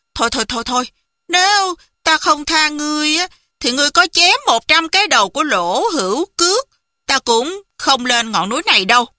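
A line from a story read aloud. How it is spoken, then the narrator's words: Graceful smiling voice. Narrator (Vietnamese): Hoàng Dung duyên dáng mỉm cười, nói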